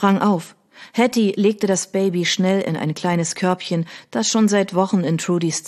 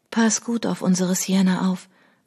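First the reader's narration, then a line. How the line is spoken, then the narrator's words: Whisper. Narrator (German): wisperte sie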